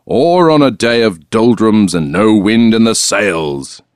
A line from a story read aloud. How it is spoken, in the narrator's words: roared as if she was up in a crow's nest, his face red